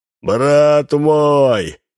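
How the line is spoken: Shouting. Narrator (Russian): кричал он

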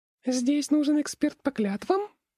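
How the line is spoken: Excited squeak. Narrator (Russian): пискнула разгоряченная импа

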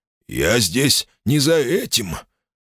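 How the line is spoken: Wheezing, breathless. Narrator (Russian): Дыхание Джема с хрипом вырывалось из груди

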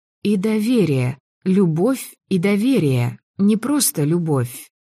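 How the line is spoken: Slow repetition. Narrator (Russian): медленно повторила я

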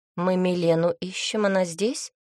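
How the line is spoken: Calm question. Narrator (Russian): спокойно спросила

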